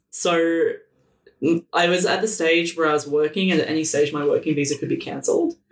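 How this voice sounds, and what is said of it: Australian accent. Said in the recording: “if you haven't known from my accent, I'm actually from Australia.”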